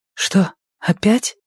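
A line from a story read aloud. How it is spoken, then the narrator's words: Whisper. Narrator (Russian): прошептала она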